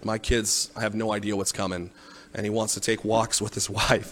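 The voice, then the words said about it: Choked up, emotional voice. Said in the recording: “Sorry, I'm getting choked up. ... if you don't tear up like I do”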